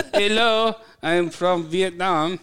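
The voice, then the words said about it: Bad put-on Vietnamese accent. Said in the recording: “Vietnamese impression ... I think they're both equally bad. I think his Vietnamese impression is much, much worse”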